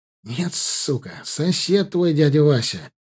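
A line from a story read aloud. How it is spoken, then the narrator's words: Nervous exhaled words. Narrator (Russian): нервно выдохнул Ваня Белоус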